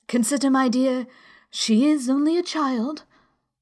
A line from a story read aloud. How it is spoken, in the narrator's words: The king timidly said